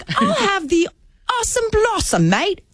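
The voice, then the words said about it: Put-on accent. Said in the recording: “You don't need an accent to order”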